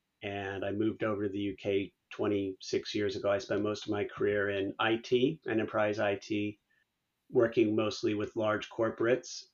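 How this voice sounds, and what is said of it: Californian American accent. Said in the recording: “as you can tell by my accent, although I live outside of London, I'm originally from California, originally from the Bay Area”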